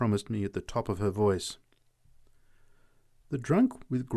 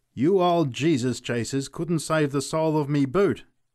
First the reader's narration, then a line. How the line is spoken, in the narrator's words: he cried